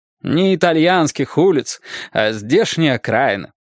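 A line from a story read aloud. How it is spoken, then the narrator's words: Grumbling. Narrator (Russian): проворчала Нина Владимировна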